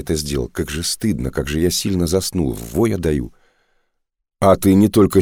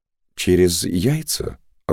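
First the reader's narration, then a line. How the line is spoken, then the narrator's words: Timid question. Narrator (Russian): робко спросил он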